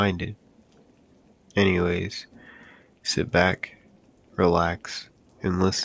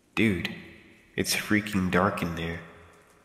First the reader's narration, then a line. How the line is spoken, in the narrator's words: I said